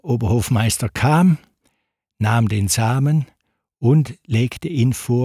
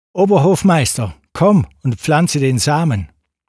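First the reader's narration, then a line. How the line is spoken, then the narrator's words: Called out. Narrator (German): Der Kalif rief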